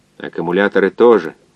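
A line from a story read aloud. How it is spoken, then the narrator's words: Grumble. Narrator (Russian): проворчал физик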